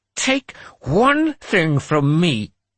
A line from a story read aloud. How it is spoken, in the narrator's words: Erika spat